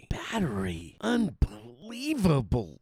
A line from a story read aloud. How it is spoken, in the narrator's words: Joey mutters desperately